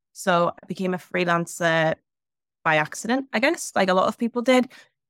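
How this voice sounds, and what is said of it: Newcastle (Geordie) English accent. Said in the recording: “based in Newcastle, as you can probably tell by the accent.”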